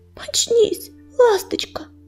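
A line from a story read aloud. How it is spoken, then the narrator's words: Whispered. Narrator (Russian): в выступлении шептал оруженосец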